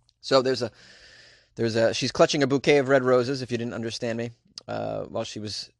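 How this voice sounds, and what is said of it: Usual voice. Nothing is said of it.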